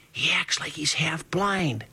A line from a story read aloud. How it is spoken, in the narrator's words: Portree, who was lying with his face close to one of my ears, whispered